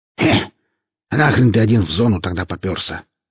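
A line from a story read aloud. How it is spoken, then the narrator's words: Grumble. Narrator (Russian): проворчала фигура за ветками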